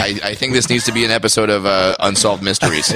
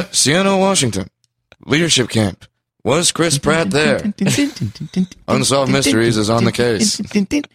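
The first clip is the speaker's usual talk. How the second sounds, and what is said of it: Imitates another person's voice. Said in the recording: “that's the first time I've ever tried to do that impression. I don't know if it was good or not.”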